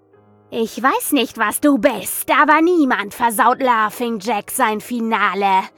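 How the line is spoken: Shrieking. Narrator (German): kreischte ich das Ding an

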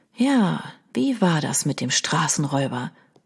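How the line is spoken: Quiet repetition. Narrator (German): wiederholte Leo leise

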